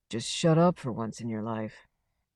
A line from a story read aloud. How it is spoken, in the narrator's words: Mel said very quietly